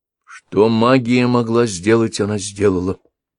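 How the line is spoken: Plain. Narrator (Russian): сказал Ршава

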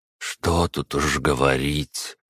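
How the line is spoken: Sorrowful exhale. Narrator (Russian): выдохнул с какой-то вселенской скорбью

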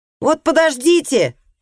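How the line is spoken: Girl shouting over shoulder. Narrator (Russian): крикнула девочка через плечо

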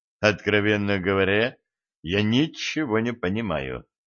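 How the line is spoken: Confused mumble. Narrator (Russian): пробормотал Стас

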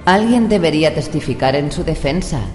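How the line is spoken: Plain. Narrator (Spanish): dijo

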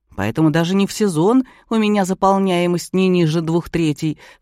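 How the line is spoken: Wry grunt. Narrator (Russian): хмыкнул Ковалев

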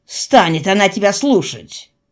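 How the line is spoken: Scoffing. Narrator (Russian): хмыкнул Данко

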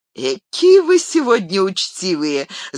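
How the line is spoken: Laughing. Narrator (Russian): засмеялся Леголас

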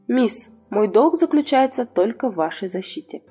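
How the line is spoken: Quiet, neutral young man's voice. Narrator (Russian): Красивый молодой человек ответил тихо, тоном, который был неуважителен, невысокомерен

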